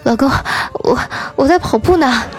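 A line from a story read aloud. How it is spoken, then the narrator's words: Breathless panting speech. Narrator (Chinese): 嫂子喘着粗气说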